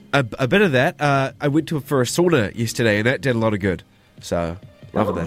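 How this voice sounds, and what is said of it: Sick-sounding voice. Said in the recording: “I'm a little bit sick. I don't know if you can hear it in my voice,”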